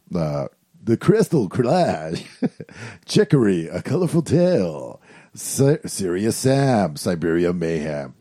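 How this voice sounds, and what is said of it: Radio announcer voice, club DJ style. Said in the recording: “I'm going to do my radio voice. ... I somehow slipped into fucking strip club DJ”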